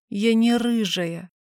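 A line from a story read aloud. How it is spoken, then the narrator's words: Tearful mutter. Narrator (Russian): буркнула в ответ, вытирая слезы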